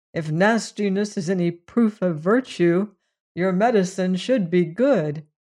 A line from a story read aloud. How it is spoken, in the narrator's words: he said, with a gasp